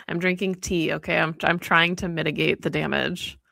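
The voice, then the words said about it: Congested voice from a cold. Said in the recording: “I have a little cold. I warned you. So if anybody thinks that I sound weird,”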